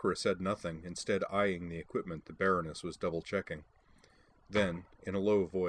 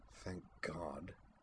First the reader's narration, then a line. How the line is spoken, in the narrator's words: Sakura muttered